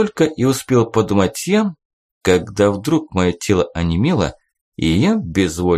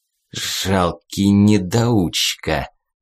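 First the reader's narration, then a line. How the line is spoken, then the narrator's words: Spiteful gleeful hiss. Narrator (Russian): Злобно и вместе с тем радостно процедил он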